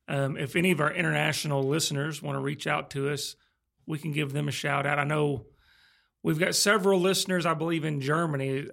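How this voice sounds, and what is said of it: Southern US accent. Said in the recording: “we're all American here. You can hear our southern U.S. accents.”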